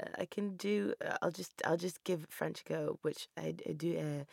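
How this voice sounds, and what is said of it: Usual voice. Nothing is said of it.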